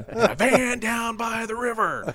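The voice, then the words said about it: Matt Foley impression. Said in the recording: “his best Matt Foley impersonation”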